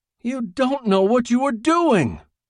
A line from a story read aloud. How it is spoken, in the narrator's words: the old man screeched